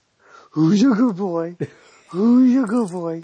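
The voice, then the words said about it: The who's-a-good-boy dog voice. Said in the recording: “you got to do the voice.”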